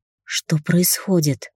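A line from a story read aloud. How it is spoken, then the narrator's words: Hoarse croak. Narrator (Russian): прохрипела я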